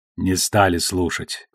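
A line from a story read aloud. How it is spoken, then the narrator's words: Sighing. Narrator (Russian): вздохнул Бася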